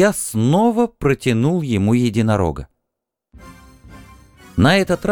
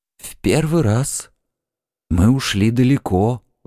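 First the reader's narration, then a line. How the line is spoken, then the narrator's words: Breathless exhale. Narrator (Russian): выдохнул Куштенгри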